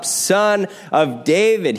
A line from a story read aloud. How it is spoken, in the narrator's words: he cries out